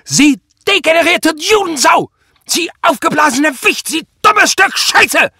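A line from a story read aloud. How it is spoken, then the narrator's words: Screaming bloody murder. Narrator (German): schrie Prall wie am Spieß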